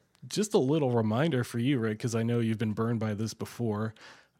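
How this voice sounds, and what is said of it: Richer, rougher sick-sounding voice. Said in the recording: “it sounds like there's a richness to your voice, a little more character to your voice this week ... been dealing with some sort of a flu or a cold all week ... my sexy voice”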